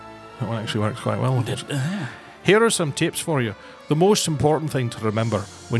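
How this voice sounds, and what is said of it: Usual voice. Nothing is said of it.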